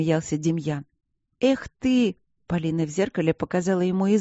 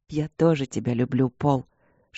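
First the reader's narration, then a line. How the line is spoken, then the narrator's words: Whisper in ear. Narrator (Russian): шепнул он ей на ухо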